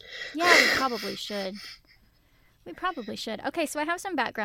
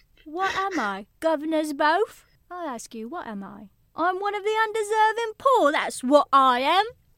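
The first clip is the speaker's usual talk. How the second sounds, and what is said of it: Put-on Victorian Cockney accent. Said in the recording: “You're learning Victorian Cockney.”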